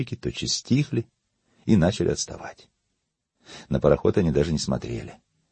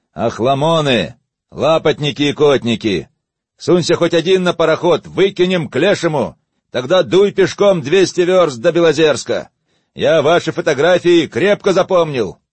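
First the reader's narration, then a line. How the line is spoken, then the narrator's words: Annoyed shout. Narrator (Russian): рулевому надоел насмешливый гомон и свист возниц, он закричал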